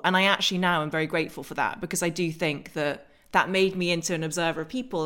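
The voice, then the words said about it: English accent. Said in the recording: “my English accent was actually an accent”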